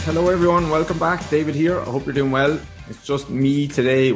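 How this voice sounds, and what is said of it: Slightly raspy hoarse voice. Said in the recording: “My voice is a little bit raspy because I was at a stag party last weekend ... my voice is a little bit off”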